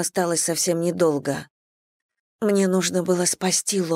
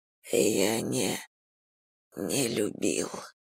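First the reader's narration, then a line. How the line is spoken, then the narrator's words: Moan. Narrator (Russian): простонал Мурха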